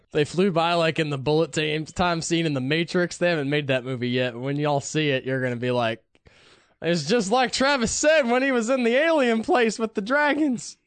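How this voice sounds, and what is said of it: Put-on Southern twang accent. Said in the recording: “I'm giving them southern accents ... The twang.”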